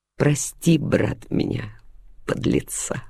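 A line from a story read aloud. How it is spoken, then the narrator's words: Muttering. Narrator (Russian): пробормотал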